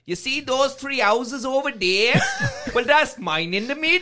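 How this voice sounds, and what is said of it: Put-on Welsh accent. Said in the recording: “what I always say in a Welsh accent”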